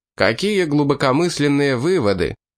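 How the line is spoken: Snide remark. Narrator (Russian): ехидно заметил

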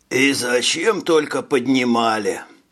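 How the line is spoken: Sighing. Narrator (Russian): вздохнул Хирш

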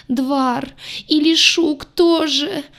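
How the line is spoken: Bitter howling wail. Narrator (Russian): горько взвыла рыжая

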